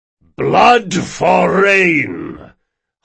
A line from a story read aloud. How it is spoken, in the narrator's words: hollered the leader of the priests once again